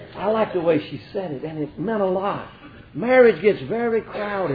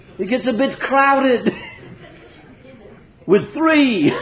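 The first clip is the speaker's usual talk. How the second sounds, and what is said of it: Imperfect put-on British accent. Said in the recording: “I know my accent is not perfect, but it sounded a little British”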